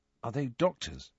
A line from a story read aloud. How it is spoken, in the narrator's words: he asked Ron quietly